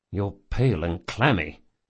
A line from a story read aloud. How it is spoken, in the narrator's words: he muttered